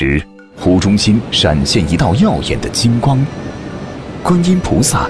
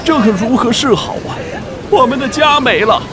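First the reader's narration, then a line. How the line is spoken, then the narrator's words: Crowd crying and wailing. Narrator (Chinese): 乡亲们都哭闹不止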